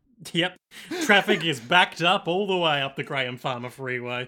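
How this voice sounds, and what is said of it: Mock radio announcer voice. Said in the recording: “Doing my radio voice. ... Is this your radio voice? Coming to you live from a helicopter?”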